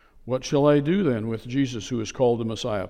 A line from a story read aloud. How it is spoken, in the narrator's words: Pilate asked